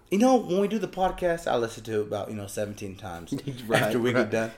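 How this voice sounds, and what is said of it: Sick, under-the-weather voice. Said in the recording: “Your boy is sicky poo ... He's a little under the weather today ... my voice is a little different”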